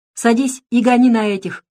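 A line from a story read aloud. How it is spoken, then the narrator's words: Soldier shouting. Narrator (Russian): крикнул боец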